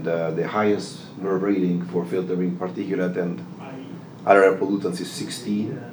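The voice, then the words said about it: Speaks with a noticeable accent. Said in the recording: “his delightful accent”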